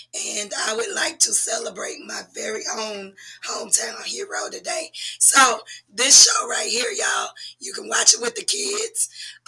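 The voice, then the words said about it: Strained, unwell-sounding voice. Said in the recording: “I sound horrible ... my voice is not at 100% capacity ... my horrible voice”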